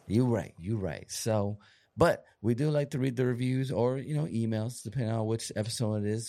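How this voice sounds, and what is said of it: Partly lost, strained voice. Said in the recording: “You've been losing your voice a little bit today. ... Lost my voice a little bit today.”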